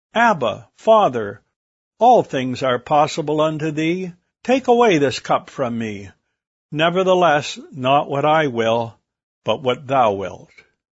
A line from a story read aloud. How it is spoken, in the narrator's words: Jesus cried